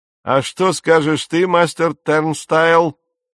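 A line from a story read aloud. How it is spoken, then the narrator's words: Shout. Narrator (Russian): крикнул он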